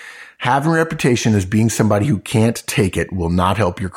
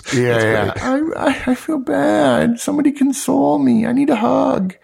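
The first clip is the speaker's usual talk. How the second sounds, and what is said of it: Whiny complaining voice. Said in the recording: “Is that the tone you have in your voice? ... 6'4" with a whiny voice.”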